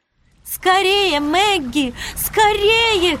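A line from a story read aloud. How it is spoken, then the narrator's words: Shouting. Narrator (Russian): кричала Вивиана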